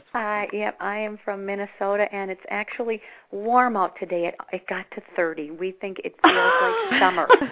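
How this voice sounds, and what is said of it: Slight regional American accent. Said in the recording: “to my ear, you have a little bit of an accent.”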